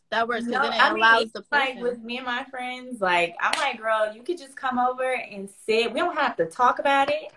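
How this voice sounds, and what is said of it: Light Southern country accent. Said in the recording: “You have an accent. ... Is it a Southern accent? ... A little bit. It's all a little country. ... You got an accent. ... It's not like heavy, but you, the certain words you say, I'm like, ooh, I hear the accent.”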